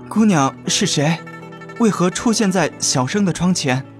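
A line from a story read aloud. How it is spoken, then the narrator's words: Hoarse voice. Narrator (Chinese): 声音沙哑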